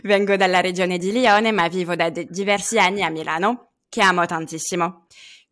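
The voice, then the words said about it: French accent speaking Italian. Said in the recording (Italian): “come sentirete dal mio accento, non sono del tutto italiano ... Sono francese”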